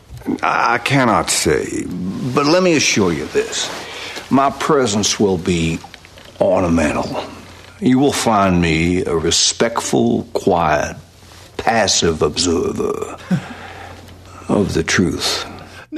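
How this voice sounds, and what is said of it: Over-the-top Foghorn Leghorn-like accent. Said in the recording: “the accent's a little over the top ... heightened ... one character calls him Foghorn Leghorn”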